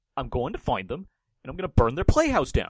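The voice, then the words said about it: Imitates another person's voice. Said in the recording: “Did you hear my impression? ... it sounded like Nicolas Cage”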